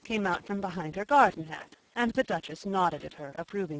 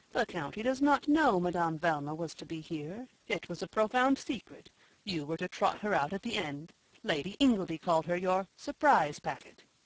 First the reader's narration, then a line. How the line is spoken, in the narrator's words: suggested Garth in his most soothing voice